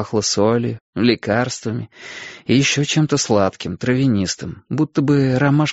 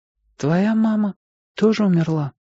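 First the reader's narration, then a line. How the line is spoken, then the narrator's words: Timid question. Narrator (Russian): робко спросила она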